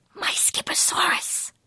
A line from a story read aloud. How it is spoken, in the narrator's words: he whispered